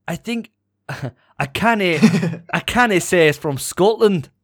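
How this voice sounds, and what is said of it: Put-on Scottish accent, fairly decent. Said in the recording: “Can I hear that in a Scottish accent? ... To be fair, that was a lot better than your Spanish accent last week”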